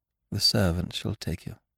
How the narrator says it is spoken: murmured

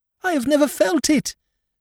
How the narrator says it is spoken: cried the blind girl

